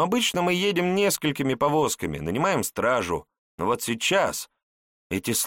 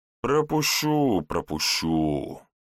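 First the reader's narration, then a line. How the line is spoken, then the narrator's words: Grumbling guard. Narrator (Russian): ворчал страж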